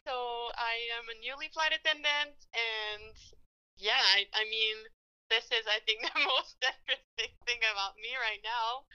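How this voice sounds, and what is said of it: Quebec French accent. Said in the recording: “I'm from Quebec, as you can tell from my lovely little Frenchy accent”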